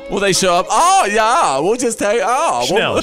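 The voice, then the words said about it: Put-on German accent. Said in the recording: “I could do that because, really, my homeland is Germany, so I'm allowed to do that accent.”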